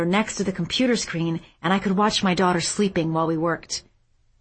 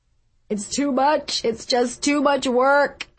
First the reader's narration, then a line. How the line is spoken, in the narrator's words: sobbed